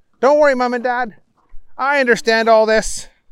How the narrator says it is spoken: William piped up

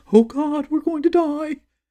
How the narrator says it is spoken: McTall shrieking in my mind

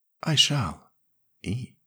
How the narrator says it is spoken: she said softly

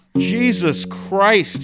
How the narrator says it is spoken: he yelled

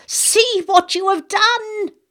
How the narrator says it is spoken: screamed

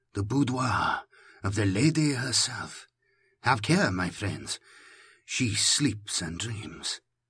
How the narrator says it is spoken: Palama whispered, reverently

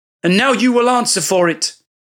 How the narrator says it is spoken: shouted

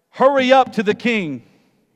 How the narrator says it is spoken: Elijah shouted

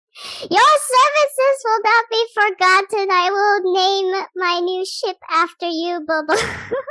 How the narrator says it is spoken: I call out to Bobo with this big grand gesture and scream out

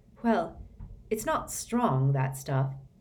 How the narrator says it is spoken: said Harry

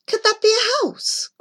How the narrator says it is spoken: cried Joy

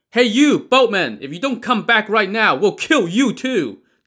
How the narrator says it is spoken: the men on land shouted

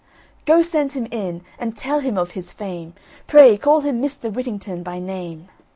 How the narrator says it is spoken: the merchant heard this, he called out to his servants

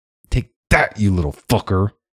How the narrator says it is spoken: Hickory snarled

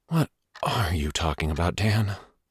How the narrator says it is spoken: Carter said irritably

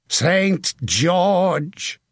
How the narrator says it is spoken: he shouted

